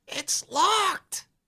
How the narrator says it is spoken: he says in a loud whisper

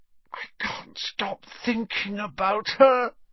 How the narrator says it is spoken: said Ron hoarsely

